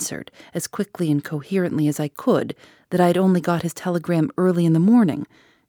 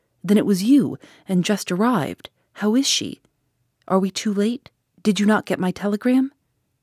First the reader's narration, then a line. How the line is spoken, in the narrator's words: he gasped out